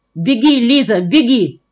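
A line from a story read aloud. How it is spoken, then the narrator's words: Shout. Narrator (Russian): крикнул я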